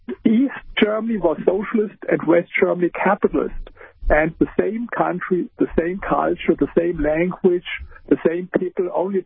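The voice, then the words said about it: German accent. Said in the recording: “I live here in Germany, as you hear with my accent”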